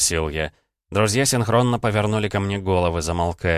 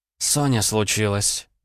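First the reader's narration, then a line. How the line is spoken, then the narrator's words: Breathed out. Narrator (Russian): выдохнула Ванда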